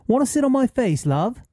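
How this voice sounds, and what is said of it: Put-on British accent. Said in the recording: “obviously I'm going to read this in a British accent because this is the way it should be read”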